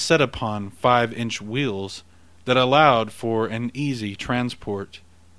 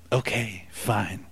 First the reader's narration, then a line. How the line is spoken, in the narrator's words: Ethan muttered with frustration